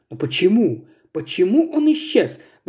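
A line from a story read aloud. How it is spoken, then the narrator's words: Exclaiming. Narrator (Russian): воскликнул наконец мистер Саттерсуэйт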